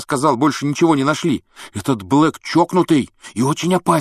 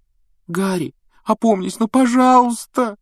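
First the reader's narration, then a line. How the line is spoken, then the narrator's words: Tearful pleading. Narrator (Russian): со слезами взмолилась Гермиона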